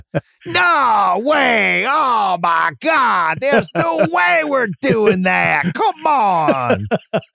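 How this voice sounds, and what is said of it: Imitates another person's voice. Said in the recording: “my Vern impersonation... That was pretty good”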